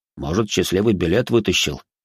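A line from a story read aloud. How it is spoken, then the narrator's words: Snort. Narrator (Russian): хмыкнул Борис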